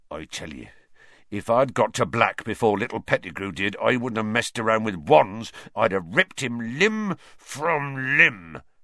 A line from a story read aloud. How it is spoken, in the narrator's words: Hagrid growled